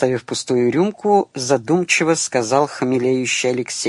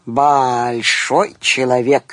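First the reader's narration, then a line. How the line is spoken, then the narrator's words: Drunken drawl. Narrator (Russian): нетрезво протянула Надежда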